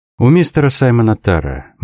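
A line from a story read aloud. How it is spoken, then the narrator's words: Gloomy. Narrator (Russian): мрачно сказал ее кузен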